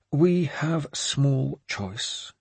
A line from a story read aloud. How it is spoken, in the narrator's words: Swithrid said calmly